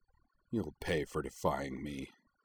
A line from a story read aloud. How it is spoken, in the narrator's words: he growled